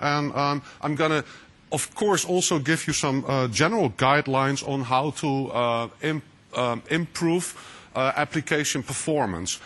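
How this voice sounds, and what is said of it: Dutch-accented English. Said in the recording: “here in the Netherlands, so that's my funny accent”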